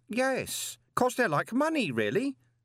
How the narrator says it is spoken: said Stanley cheerfully

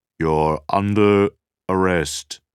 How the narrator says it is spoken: loudspeakers boomed

